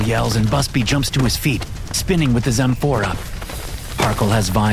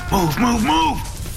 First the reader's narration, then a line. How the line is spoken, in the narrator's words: Busby shouts